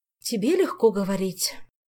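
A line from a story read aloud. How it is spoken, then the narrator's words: Sigh. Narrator (Russian): вздохнула Джоанна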